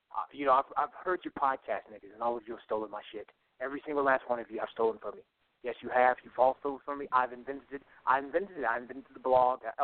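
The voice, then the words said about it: Imitates another person's voice. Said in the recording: “that's my Paul Mooney impression, but I got to work on it.”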